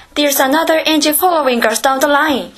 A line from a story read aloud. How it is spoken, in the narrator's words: he cried